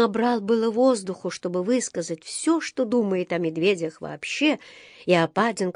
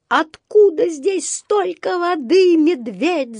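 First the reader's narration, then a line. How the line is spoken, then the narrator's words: Yell. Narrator (Russian): завопил он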